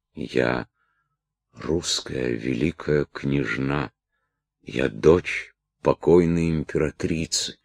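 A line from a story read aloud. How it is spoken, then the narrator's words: Strained faint whisper. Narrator (Russian): с усилием прошептала коснеющими устами пленница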